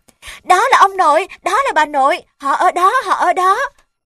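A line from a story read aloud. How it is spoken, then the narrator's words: Joyful cries. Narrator (Vietnamese): Chúng hân hoan kêu lên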